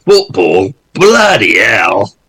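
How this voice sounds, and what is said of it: Imitates another person's voice. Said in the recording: “The impersonation was immaculate... Is that Steve Rutter or is that Adrian Hopper? I can't tell.”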